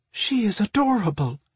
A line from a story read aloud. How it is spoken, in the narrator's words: Marina breathed out in delight